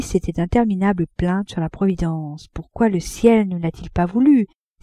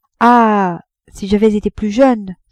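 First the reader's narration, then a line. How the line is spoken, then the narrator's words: Sighing. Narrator (French): soupirait-elle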